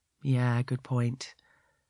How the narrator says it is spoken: he says sadly

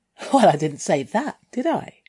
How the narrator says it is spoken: I giggled

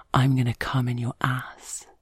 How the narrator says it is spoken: he whispers in my ear

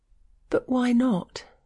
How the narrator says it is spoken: she gasped

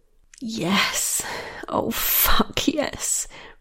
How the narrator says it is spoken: breathed Michaela

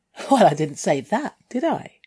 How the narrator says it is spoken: I giggled

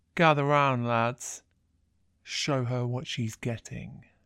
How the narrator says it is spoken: he says, his voice catching as he tries to push words out through his lust

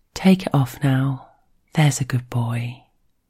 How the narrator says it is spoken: she says it softly in his ear

